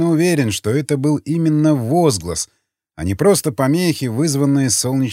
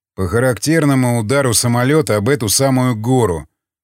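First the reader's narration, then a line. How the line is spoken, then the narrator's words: Grim joke. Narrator (Russian): мрачно пошутил варяг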